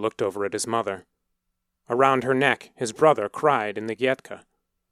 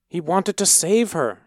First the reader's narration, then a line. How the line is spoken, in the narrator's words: his mother pleaded